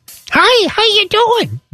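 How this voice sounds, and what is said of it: Very high-pitched Teddy Ruxpin voice. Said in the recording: “with a high-pitched Teddy Ruxpin voice ... a very high-pitched voice ... Wow. That's pretty good. ... That's the stuff of nightmares right there.”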